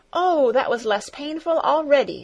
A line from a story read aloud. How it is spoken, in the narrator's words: she exclaimed joyfully